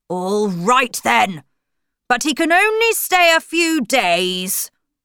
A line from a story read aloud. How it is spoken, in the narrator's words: shout